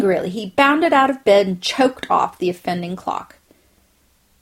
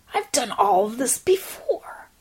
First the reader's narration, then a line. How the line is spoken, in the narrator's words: he mumbled